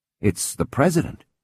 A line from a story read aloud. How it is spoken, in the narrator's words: he said to her almost stiffly